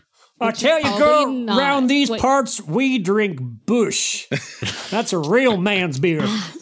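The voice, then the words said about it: Put-on Southern US accent. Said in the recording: “Your southern accent's coming along quite well.”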